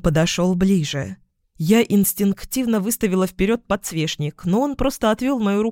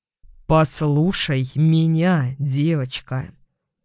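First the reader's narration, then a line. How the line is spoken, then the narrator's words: Slow, emphatic. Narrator (Russian): сказал он медленно, чеканя каждое слово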